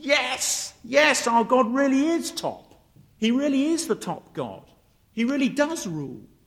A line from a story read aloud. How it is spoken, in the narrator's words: the little boy shouts